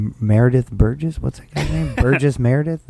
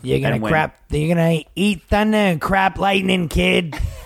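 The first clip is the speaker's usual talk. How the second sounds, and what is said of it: Imitates another person's voice. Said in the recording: “That's my impression of him.”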